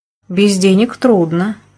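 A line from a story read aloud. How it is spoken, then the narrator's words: Sighing. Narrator (Russian): я вздохнула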